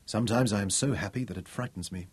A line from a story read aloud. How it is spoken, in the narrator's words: he said